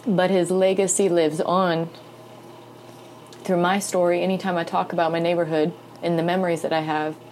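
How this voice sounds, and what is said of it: Emotional, choked-up voice. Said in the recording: “getting emotional about it. ... I'm getting emotional”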